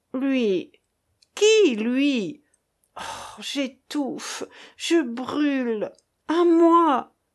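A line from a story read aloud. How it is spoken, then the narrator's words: Stammering in writhing agony. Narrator (French): balbutia le malheureux en se tordant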